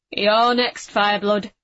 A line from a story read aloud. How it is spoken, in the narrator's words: said Bracca in a low rumble